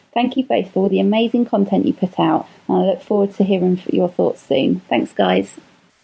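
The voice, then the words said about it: British accent. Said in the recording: “if you have a sexy British accent”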